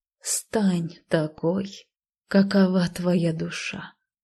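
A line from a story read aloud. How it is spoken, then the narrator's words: Slow speech. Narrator (Russian): медленно произнесла я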